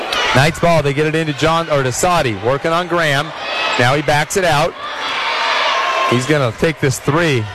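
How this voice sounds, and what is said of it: Voice going hoarse from yelling. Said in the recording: “you can hear it, folks. My voice is starting to go. We're wearing out here... hoarse yelling”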